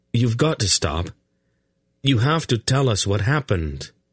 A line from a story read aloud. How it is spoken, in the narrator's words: he pleaded with her